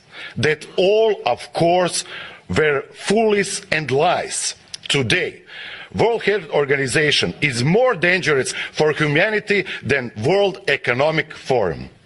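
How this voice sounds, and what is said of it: Foreign accent, possibly Russian. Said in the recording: “that's an interesting accent that the dude has there ... I think he's Russian”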